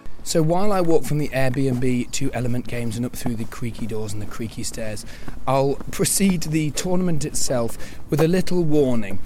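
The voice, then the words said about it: Hoarse, partly lost voice. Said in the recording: “You may be able to tell this is my voice, and this is my voice on Tuesday after the tournament. I started losing my voice on Saturday afternoon, and basically it never recovered throughout the tournament.”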